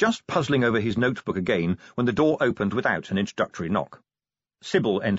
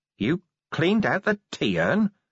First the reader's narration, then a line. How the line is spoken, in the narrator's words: said Vimes in a hollow voice